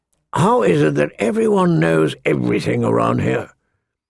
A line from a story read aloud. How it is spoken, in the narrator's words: Mormont grumbled